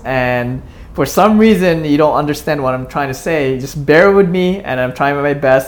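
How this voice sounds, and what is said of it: Speaks English with an accent. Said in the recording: “I do have an accent”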